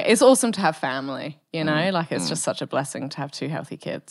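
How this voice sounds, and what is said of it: British accent, slightly Australian-tinged. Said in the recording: “your accent would give away that you weren't born in Perth ... From the UK ... It does come out more when I'm presenting ... it's a little bit more Australian when you actually meet me”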